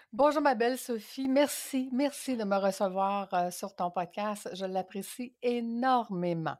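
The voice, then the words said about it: French accent from across the Atlantic. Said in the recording (French): “vient euh, ben, de l'autre côté de l'Atlantique, hein, qui a un merveilleux accent”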